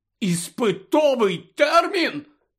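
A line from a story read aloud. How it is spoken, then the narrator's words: Very loud exclamation. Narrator (Ukrainian): так голосно вигукнув Рон, що аж на нього здивовано озирнулися інші учні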